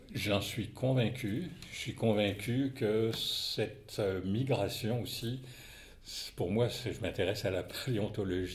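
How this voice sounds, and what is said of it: Light Québécois French accent. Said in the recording (French): “vous avez quand même un léger accent ... Québécois.”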